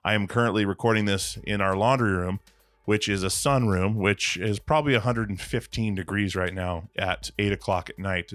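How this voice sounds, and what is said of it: Slightly weird-sounding voice. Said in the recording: “my voice is a little weird. I'm having some extreme allergies”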